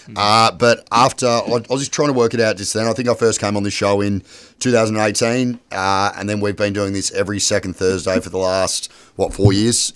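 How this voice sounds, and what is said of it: Hoarse, croaky voice. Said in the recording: “I lost my voice, so apologies if I sound a little bit croaky”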